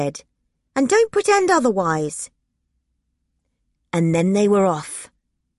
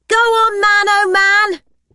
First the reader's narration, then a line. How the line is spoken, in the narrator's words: I yelled